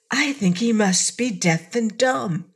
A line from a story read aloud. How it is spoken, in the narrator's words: Cake whispered to her companion